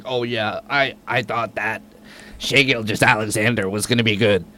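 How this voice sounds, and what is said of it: Imitates another person's voice. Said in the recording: “my Doc Rivers impression.”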